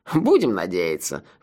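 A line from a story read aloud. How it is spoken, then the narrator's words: Sighing. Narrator (Russian): вздохнул сэр Маба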